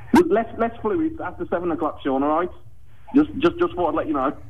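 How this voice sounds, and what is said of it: Put-on Brummie accent. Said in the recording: “got a stupid accent... I'm a brummie... Is it brummie?”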